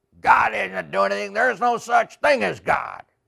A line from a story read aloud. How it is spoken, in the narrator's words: shout out